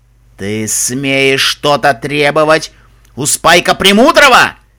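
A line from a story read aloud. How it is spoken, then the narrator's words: Dragon roaring. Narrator (Russian): Взревел черный дракон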